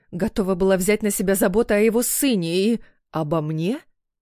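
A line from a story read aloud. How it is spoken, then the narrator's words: Incredulous growl. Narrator (Russian): Не веря своим ушам, переспросил я и прорычал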